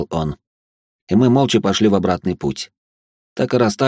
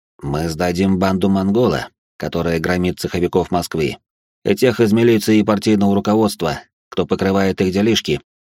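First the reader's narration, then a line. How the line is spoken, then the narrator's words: Plain. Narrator (Russian): ответил он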